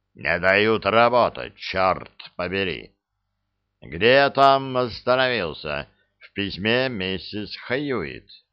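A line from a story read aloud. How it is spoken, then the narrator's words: Grumble. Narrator (Russian): Вулф проворчал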